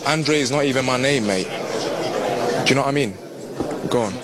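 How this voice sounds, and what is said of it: Strong London British accent. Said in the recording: “London accent, basically. It's just like British, hardcore British accent.”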